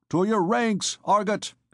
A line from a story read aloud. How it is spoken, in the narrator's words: he cried